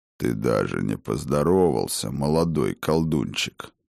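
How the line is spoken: Deep bass reply. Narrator (Russian): пробасил в ответ Мимир

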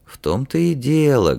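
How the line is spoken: Sad. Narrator (Russian): грустно сказал министр

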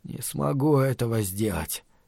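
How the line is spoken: Mumble. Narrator (Russian): пробормотал Стью Коджику

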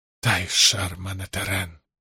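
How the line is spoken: Mutter. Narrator (Russian): пробормотал Лан

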